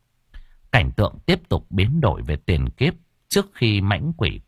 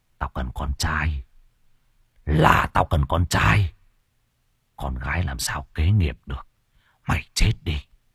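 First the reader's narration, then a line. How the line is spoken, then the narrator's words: Man muttering. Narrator (Vietnamese): một người đàn ông miệng lẩm bẩm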